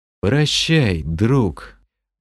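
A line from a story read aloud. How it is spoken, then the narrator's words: Dull, muffled voice. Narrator (Russian): глухо произнес я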